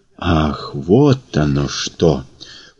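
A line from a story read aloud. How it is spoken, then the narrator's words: Drawn-out, surprised. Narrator (Russian): протянул Прохор, скорее удивленно, чем испуганно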